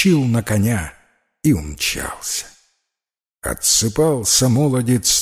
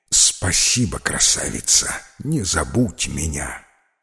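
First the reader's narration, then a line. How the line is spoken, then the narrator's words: Whispering. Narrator (Russian): шепнуть царевне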